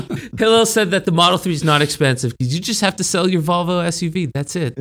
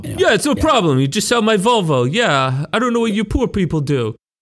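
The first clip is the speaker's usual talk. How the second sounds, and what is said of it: Bad impression, Tony Soprano-like voice. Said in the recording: “if 100 is like the perfect impersonation, that didn't even make the chart ... That was the worst impersonation of me ever ... Tony from Sopranos? What was that?”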